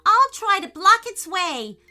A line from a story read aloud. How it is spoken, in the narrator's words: yelled Payton